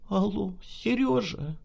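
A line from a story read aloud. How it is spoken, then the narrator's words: Trembling voice, calling. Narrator (Russian): Дрожащим голосом позвала она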